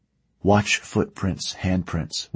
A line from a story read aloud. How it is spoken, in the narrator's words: whispered Nate to Vitold